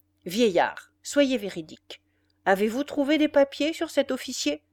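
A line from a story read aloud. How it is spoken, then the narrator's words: Man speaking sternly but calmly. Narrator (French): il dit d'un ton sévère, mais calme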